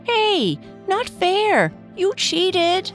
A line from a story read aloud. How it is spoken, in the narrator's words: Rusty yelled as he ran in hot pursuit of Red